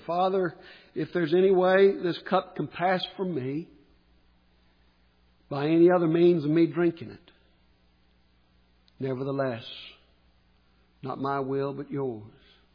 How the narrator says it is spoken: in Gethsemane, He cried out and said

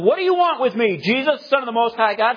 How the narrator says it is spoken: Screaming at the top of his voice

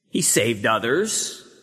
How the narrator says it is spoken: they said

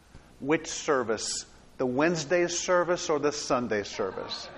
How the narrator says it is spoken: little Alex, in a barely audible voice, asked

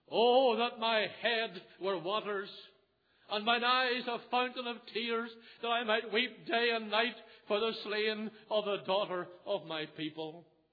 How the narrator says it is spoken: Jeremiah cried

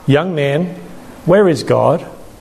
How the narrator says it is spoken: The minister, a kindly man, asked

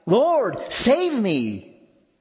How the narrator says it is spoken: He cried out

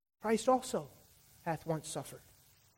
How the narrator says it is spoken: let this text whisper in our ears

